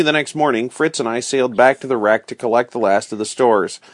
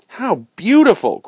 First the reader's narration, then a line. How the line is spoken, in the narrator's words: cried Fritz